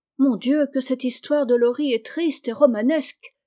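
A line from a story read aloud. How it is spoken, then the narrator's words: Exclaiming. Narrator (French): s'écria Meg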